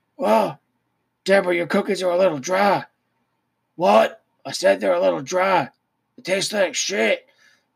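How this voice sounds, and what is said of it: Imitates another person's voice. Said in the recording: “I can't do an Angle. ... I can't do any impersonation. So all impersonations are going to be terrible.”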